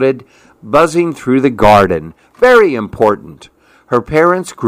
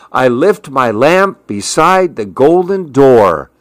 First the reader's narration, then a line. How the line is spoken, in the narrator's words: she called out